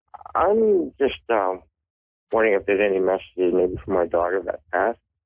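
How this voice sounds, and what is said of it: Canadian accent. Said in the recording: “You've got a fantastic accent. I love Canadian accents.”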